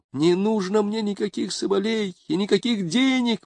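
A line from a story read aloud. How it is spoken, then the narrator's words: Exclamation. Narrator (Russian): воскликнула она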